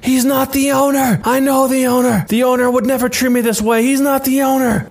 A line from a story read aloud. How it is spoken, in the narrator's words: This sets the guy off even more, and he starts screaming